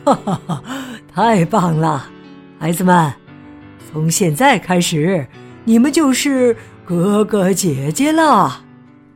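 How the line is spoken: Joyful old man. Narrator (Chinese): 格里族爷爷喜笑颜开的说

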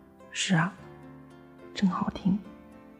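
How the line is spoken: Tender murmur. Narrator (Chinese): 母亲……满脸柔情，喃喃道

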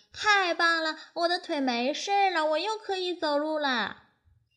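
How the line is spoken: Joyful shout. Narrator (Chinese): 小老鼠高兴地跳了起来，大声喊道

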